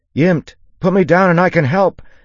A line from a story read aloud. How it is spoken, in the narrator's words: Alwyn shouted, not really sure how true that was